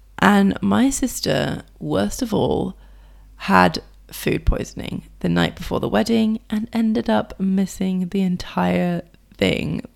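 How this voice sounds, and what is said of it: Rough, unwell-sounding voice. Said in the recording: “apologize for my voice, by the way. I hope that this is not so unpleasant to listen to.”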